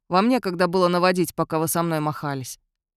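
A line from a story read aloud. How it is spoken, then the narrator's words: Grumbling. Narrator (Russian): проворчал Ионел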